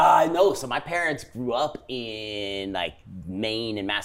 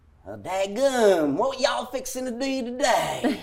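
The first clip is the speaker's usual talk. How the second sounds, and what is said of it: Put-on Southern US accent. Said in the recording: “I have the Southern accent down pretty good”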